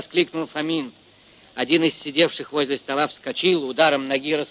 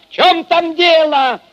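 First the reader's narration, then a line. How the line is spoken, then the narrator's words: Shout into darkness. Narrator (Russian): крикнул в темноту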